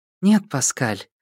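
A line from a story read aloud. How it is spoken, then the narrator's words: Soft reply. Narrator (Russian): мягко ответила Джада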